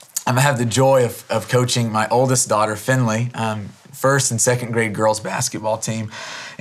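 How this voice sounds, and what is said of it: Slightly hoarse voice. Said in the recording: “My voice is a little hoarse from today ... I was not screaming at the girls, but I was trying to get their attention in a large gym for 2 hours. And so my voice is a little hoarse this morning.”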